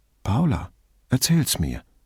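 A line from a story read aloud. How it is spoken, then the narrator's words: Forced calm. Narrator (German): sagte er so ruhig wie möglich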